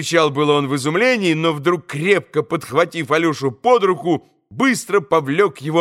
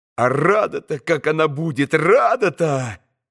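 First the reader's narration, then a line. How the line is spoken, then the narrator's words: Mumbling, trailing off. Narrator (Russian): пробормотал было он, но опять примолк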